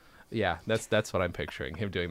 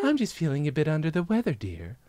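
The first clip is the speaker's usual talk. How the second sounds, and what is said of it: Man putting on a woman's voice. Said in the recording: “doing that woman voice that he does”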